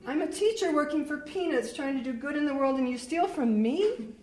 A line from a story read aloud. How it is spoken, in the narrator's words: My voice was rising in pitch